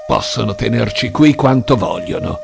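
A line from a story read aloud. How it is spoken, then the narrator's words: Growled. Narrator (Italian): ringhiò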